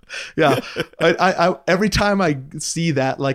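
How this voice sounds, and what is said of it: Usual voice. Nothing is said of it.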